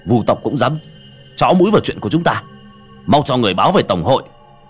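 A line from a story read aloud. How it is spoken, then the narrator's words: Angry. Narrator (Vietnamese): Tên cầm đầu tức giận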